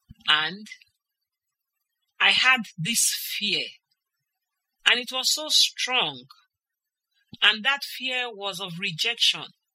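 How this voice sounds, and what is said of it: English spoken with a foreign accent. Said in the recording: “As obvious as it is, I speak with an accent.”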